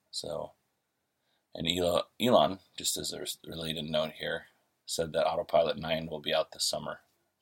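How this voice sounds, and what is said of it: Slightly raw morning voice. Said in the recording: “my voice is a little raw as it's 6:30 in the morning”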